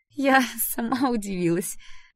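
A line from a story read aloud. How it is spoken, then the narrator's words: Ringing laugh. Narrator (Russian): звонко рассмеялась Дэрил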